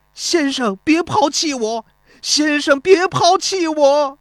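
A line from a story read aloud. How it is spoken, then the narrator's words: Sobbing cry. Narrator (Chinese): 孙膑哭喊着说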